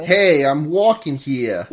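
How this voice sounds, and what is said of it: Exaggerated Italian New York accent. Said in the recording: “Extremely strong, like, Italian New York accent. Like... extremely strong.”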